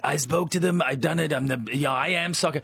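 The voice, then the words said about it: Imitates another person's voice. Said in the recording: “That's an amazing impersonation.”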